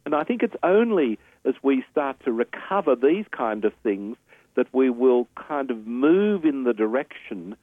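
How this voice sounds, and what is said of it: Australian accent. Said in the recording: “obviously an Australian by his accent”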